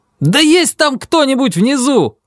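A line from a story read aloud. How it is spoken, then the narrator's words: Full-throated repeated shout. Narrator (Russian): закричал я в третий раз во все горло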